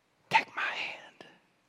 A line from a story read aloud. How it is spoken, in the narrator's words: she whispered